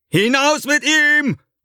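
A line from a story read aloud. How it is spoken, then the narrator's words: Calling to guards. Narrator (German): ruft er den Aufsehern zu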